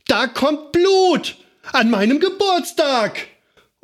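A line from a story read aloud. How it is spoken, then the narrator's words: Screaming repeatedly, hurt. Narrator (German): sie schrie und schrie und schrie, weil sie blutete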